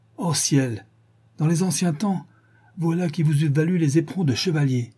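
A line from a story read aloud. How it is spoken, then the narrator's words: Exclaiming. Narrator (French): s'écria Mrs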